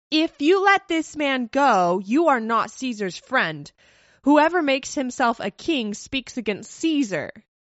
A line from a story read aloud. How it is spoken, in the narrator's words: the Jews cried out